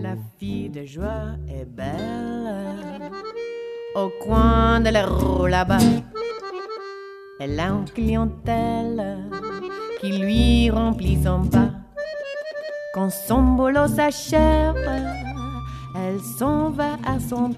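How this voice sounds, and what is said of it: Heavy English accent in French. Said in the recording (French): “elle a un accent anglais à couper au couteau”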